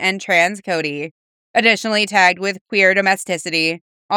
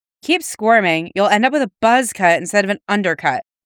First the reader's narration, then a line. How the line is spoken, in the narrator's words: she chides